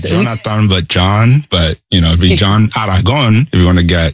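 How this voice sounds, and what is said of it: Colombian accent. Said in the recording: “I like the way you say it, too. I love the accent that comes through. You're from Colombia”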